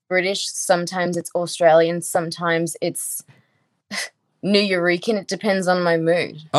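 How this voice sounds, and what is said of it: Shifting British and Australian accent. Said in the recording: “going in and out of a British accent at all times... I just heard Australian come up more than I've heard before”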